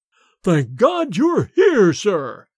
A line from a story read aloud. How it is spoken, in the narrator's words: boomed forth in Bates's sepulchral voice